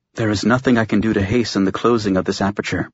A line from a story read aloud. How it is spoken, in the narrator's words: she murmured